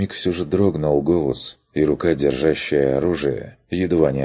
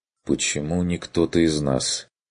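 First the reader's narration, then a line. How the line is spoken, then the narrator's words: Quiet and tired. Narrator (Russian): проговорил Курт тихо, чувствуя, что устал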